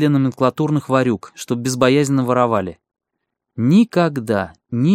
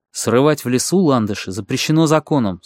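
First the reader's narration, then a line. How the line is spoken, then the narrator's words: Stern. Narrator (Russian): строго сказал ей Дарновский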